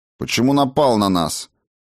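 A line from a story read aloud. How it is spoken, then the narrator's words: Sharp, curt. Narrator (Russian): Резко бросила чародейка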